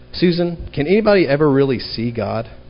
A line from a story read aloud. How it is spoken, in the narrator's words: he asked